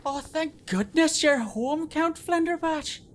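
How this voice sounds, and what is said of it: Panicked woman, regional accent. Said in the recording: “her usual pleasing regional accent was flavored with a rather large dollop of panic”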